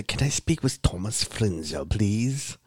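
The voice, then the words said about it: Put-on British accent. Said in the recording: “for some reason I did a British accent”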